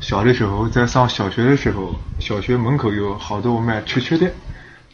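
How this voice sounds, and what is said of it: Nanjing dialect speech. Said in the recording (Chinese): “我给大家用南京话讲一段我小时候的故事”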